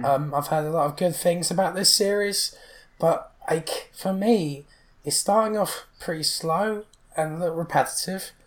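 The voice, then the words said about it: Strained, fading hoarse voice. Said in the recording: “my voice is really starting to go now”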